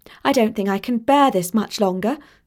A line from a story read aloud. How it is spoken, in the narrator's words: gasped Talia